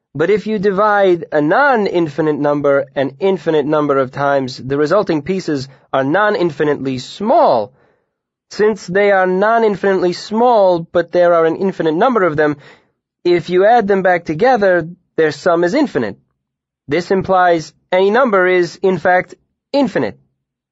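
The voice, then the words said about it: Character voice with odd accent. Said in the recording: “Urish said in his odd Lenati accent.”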